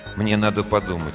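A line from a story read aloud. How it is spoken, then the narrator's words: Muttered. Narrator (Russian): пробормотал он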